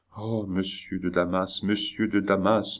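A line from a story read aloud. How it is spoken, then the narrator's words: Murmured. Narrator (French): murmura le roi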